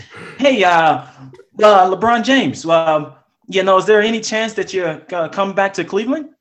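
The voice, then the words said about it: Mock news reporter voice. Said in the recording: “Lead Rob into it with your reporter voice again. ... ask the question in your reporter voice.”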